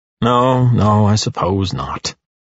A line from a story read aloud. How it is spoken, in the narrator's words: he sighs glumly